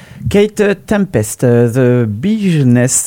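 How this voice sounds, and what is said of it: English spoken with French accent. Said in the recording (French): “avec mon accent fabuleux”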